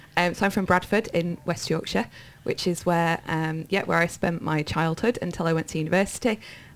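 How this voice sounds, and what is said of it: Yorkshire English accent. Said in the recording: “listeners will probably spot an accent. It comes and goes depending on who I'm talking to and what I'm talking about ... I'm a Yorkshire woman ... my dad is also Irish”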